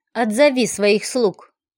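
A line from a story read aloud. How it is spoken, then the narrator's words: Menacing demand. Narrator (Russian): грозно потребовал Гладиус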